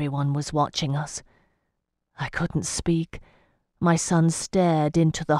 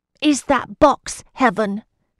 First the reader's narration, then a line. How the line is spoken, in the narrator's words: said Charlie loudly